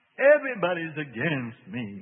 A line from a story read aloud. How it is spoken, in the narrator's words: moaned the demon